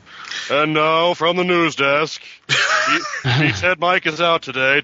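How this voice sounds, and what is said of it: Imitates a TV newsman character's voice. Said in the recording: “my Ted Baxter impression ... that's kind of like Sam Eagle from the Muppets ... from the old Mary Tyler Moore show”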